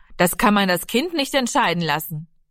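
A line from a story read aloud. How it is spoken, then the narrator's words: Interrupting call. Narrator (German): Vater Lenzen rief dazwischen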